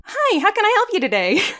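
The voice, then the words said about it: Friendly, welcoming customer service voice. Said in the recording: “I had a great customer service voice ... I had a good customer service voice because I always tried to make it a little naturalistic, a little welcoming”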